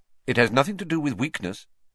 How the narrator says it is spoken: said Professor Lupin sharply

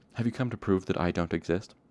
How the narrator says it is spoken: Chronicler laughed nervously

